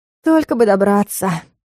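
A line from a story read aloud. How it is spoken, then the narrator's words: Breathed out. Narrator (Russian): выдохнула я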